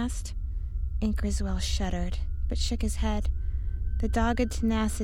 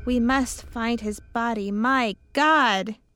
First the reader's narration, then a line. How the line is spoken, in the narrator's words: cried, unmanned by the abysmal horror of the thing